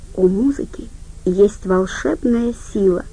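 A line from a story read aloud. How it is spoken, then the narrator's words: Very quiet, almost a thought. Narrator (Russian): Очень тихо, так тихо, что это могла быть всего лишь мысль у него в голове, Надин сказала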